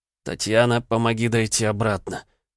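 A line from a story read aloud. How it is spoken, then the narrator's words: Hoarse, dry-throated. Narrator (Russian): прохрипел пересохшим горлом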